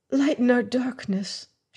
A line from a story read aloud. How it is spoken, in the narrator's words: whispered